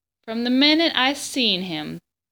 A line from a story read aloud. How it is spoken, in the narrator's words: said Bryce